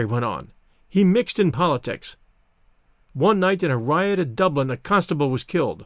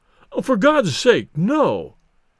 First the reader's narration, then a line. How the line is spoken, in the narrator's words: pleaded Bates